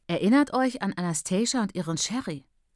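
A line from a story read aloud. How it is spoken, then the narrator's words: Plain. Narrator (German): sagte Patience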